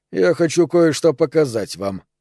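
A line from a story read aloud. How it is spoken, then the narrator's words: Calm voice. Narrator (Russian): проговорил он спокойным голосом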